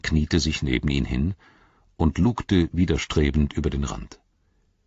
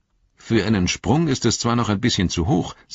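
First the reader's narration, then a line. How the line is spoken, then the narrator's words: Plain. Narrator (German): sagte Frodo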